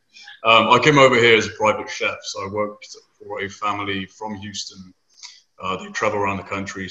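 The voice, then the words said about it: British (UK) accent. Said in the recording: “Originally came over from the UK, as you can tell by my weird accent. We say things funny. ... Sexy accent”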